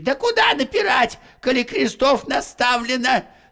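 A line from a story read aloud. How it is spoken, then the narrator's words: Shouted. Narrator (Russian): закричал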